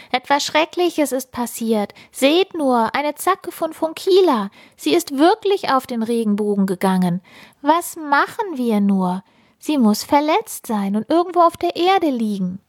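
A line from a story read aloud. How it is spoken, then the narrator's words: Very loud call. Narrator (German): Sie rief ganz laut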